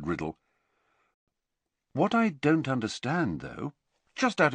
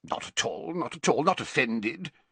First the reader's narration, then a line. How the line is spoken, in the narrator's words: said Slughorn gruffly